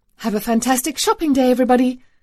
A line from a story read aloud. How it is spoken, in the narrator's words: Nim chirped